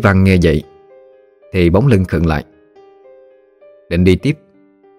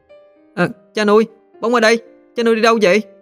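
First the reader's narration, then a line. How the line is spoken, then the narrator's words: Child shouting. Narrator (Vietnamese): thằng bóng trông thấy anh, nó liền hét lên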